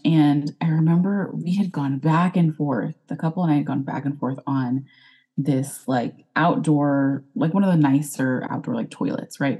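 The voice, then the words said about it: Texan accent. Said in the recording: “I'm here in Texas, if you couldn't tell by my accent”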